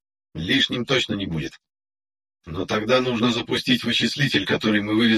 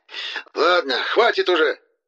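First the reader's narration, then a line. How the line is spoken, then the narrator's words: Angry, frightened shout. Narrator (Russian): Зло и одновременно испуганно выкрикнул хорошо запомнившийся мне голос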